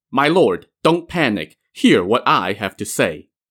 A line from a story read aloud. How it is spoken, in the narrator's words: his top civil official, San Yisheng, declared sternly